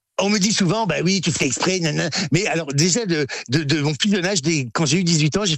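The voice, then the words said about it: Northern French accent. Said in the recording (French): “l'accent du Nord, vous ne l'avez pas perdu ... cet accent du Nord ... Mais je l'ai un peu.”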